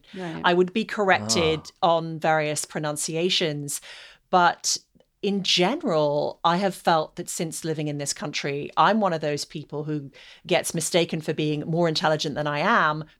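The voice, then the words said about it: Non-American accent. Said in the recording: “I was a little bit concerned about my accent ... They would tell me that I had to pronounce certain words the American way ... There's a different emphasis on certain words”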